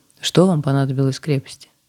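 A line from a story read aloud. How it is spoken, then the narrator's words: Casual, matter-of-fact. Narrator (Russian): спросил гвардеец, но задал вопрос совершенно будничным тоном, без обычной демонстрации своего превосходства над простыми путниками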